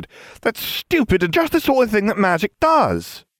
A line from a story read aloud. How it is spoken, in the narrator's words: Ginevra cried